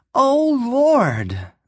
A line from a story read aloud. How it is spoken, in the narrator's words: Madge cried wildly